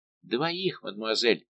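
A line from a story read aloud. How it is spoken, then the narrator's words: Very timid voice. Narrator (Russian): проговорил еще чей-то голос, но крайне робко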